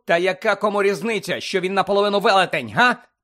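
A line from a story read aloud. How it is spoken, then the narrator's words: Shouting. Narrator (Ukrainian): закричав Гаррі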